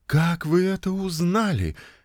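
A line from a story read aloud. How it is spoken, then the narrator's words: Forced out, reluctant. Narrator (Russian): Наконец она выдавила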